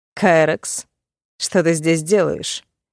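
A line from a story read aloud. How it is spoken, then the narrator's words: Cold greeting. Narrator (Russian): Холодным тоном поприветствовал его он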